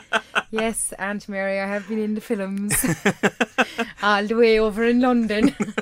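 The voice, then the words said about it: Irish Kerry accent. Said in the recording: “I'm actually pretty surprised I've managed to hold on to my accent. And if I go back to Kerry ... She's Irish?”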